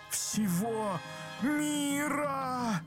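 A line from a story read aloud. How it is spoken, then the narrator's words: Stunned crowd groaning. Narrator (Russian): застонали оглушенные васюкинцы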